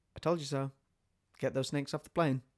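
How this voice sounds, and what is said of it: Imitates another person's voice. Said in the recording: “That was a good impression. ... I do think I have Samuel L. Jackson in my arsenal.”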